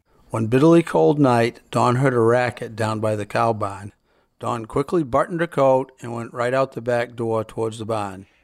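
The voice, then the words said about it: Maine Yankee New England accent. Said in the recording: “the accent of New England ... recorded on Chebig Island just off Portland, Maine ... that Yankee accent”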